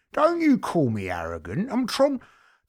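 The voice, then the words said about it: Good Tom Hardy impression. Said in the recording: “it's a very good impression to be fair ... I've got all my Tom Hardys covered”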